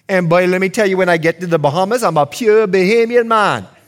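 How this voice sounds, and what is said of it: American accent. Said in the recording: “This thing that you hear is an American accent.”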